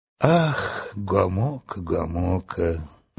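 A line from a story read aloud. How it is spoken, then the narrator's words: Sigh. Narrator (Russian): вздохнул Урфин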